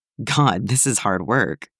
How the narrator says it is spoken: he chuckled

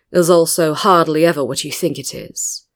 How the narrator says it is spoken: said, pausing to chuckle

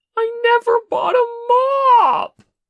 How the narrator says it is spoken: Che wailed

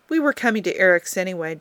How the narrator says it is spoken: Jim said

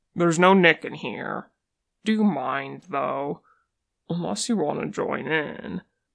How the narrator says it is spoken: out loud, Boston says

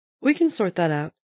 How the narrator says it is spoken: said cheerfully

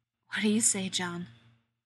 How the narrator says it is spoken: Rodney asks, in that same hoarse voice

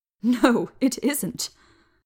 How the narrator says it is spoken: he corrected me, gasping with laughter

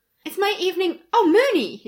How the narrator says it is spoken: he said, cheerfully

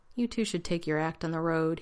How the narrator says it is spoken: he said in a tired voice

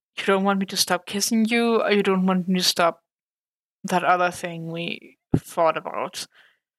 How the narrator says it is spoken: Foggy sighed and smiled

